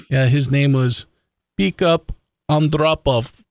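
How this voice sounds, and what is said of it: Put-on Russian accent. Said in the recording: “a Russian Uber driver ... I had to practice that accent.”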